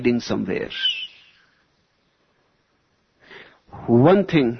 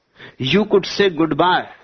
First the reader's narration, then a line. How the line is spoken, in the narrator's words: the mullah shouted up